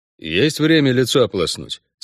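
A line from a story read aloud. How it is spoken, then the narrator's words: Glum man asking. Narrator (Russian): спросил Геральт уныло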